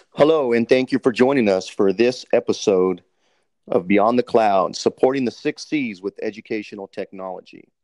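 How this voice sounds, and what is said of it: Radio DJ announcer voice. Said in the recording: “let me get my DJ voice on”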